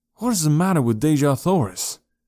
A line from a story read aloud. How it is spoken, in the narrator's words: I blurted out at her